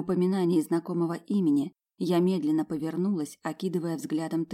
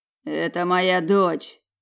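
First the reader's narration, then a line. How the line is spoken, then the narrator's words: Growled. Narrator (Russian): рыкнул господин Осман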